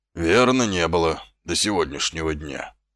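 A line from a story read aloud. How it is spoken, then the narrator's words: Gloomy. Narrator (Russian): мрачно завершил Колон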